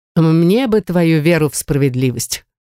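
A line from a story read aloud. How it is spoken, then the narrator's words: Snorting. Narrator (Russian): хмыкнул халиф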